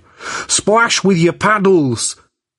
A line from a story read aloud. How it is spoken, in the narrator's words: Jack cried